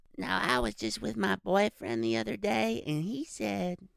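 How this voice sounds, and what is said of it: Raspy female cartoon character voice. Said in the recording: “Can you do Luann? ... Damn, dude. Again, not bad. ... It's kind of like Bobby-esque. ... It's like a female Bobby ... As raspy. ... Luann has a rasp to her voice.”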